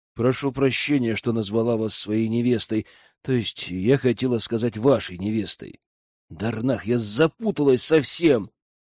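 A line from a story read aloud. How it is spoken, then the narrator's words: Tired sigh. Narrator (Russian): Вздохнула она устало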